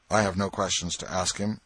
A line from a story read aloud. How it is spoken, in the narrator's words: Potter's lawyer replied